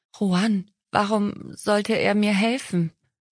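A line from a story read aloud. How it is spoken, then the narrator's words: Stammering. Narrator (German): stotterte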